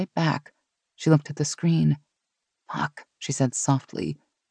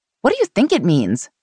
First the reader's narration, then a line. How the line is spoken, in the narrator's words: Mary snapped back